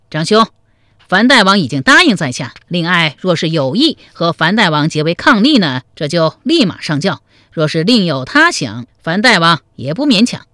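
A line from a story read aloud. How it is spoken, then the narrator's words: Loud. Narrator (Chinese): 史延德高声说道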